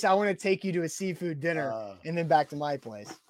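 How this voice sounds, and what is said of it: Put-on seductive sexy voice. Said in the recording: “That was the sexy voice. ... No, it was the sexy voice.”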